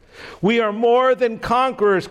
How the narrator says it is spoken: Christian yelled

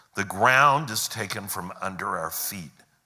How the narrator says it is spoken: said Tirian

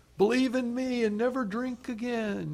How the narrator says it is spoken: some yahoo yell from the choir loft

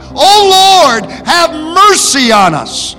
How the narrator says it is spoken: John cried out

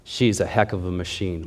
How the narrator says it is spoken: Miles replied

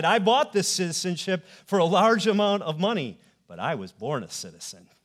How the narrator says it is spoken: Paul said

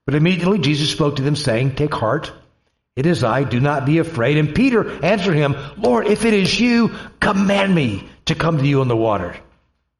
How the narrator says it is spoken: He said,

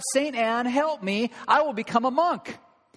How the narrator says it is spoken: he cried out

